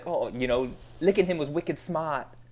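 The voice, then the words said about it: Put-on Boston Southie accent. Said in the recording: “that's my Boston accent. ... I love your impeccable Southie accent. ... That was like, perfect.”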